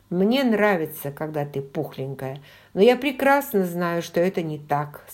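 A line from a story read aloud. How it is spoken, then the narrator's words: Plain. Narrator (Russian): сказал он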